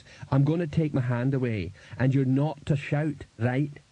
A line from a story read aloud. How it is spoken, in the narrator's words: said Cliff, in a reasonable tone of voice